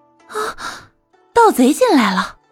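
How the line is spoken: Startled outcry. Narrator (Chinese): 宗子美刚刚醒来，正想大呼

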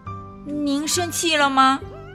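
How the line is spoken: Quiet question. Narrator (Chinese): 跳跳小声的问

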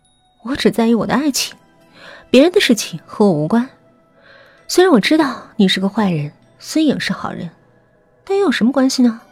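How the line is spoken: Cold sneer. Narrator (Chinese): 韩墨言的嘴角划过一丝冷笑

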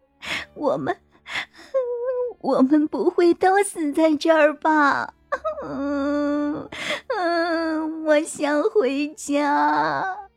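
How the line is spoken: Sobbing, crying. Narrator (Chinese): 王婉一抽泣了起来……哭着

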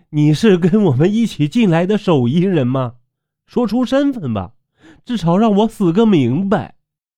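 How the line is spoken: Pleading. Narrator (Chinese): 我哀求道

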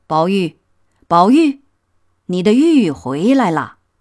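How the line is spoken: Calling close to ear. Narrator (Chinese): 在宝玉耳边叫道

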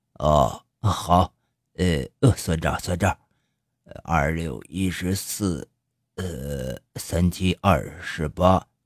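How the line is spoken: Old man muttering. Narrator (Chinese): 老头嘀嘀咕咕开始算

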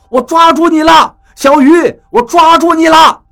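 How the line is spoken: Anxious shouting. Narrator (Chinese): 张广川焦急地冲我喊着

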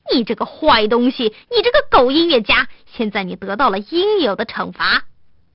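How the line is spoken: Shouting. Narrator (Chinese): 犹太人还向他喊道

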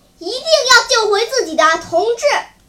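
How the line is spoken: Loud shouting. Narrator (Chinese): 高声喊叫说

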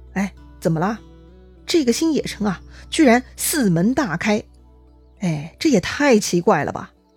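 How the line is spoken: Puzzled muttering. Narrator (Chinese): 曹仁又犯嘀咕了

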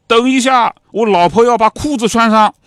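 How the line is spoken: Shouting. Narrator (Chinese): 老格呢冲外面吼了一声

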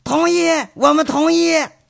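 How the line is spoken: Villagers shouting together. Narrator (Chinese): 这村里头那大人小孩捎带着那帮老媳妇们，都举着拳头喊

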